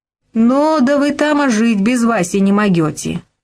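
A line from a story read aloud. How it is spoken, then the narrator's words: Plain. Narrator (Russian): сказала Глаша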